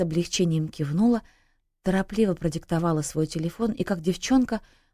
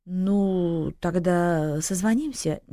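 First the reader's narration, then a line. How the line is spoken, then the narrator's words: Uncertain. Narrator (Russian): неуверенно произнес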